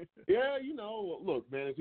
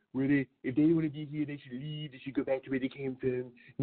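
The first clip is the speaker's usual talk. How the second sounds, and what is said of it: Accurate impression of colorful politician. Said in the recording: “Your impression's on point ... it's easy to do when someone is so colorful”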